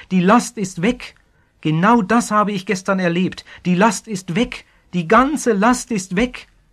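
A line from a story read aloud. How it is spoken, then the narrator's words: Calling out joyfully. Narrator (German): rief der Neubekehrte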